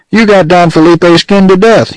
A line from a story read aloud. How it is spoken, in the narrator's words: yelled Pecos